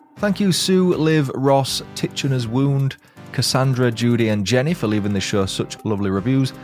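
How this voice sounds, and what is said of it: Chilled tone, lovely accent. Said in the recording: “Love his chilled tone ... His voice accent is lovely too.”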